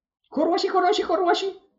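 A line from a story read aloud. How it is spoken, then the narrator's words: Shrill squeal. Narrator (Ukrainian): заверещала Оксана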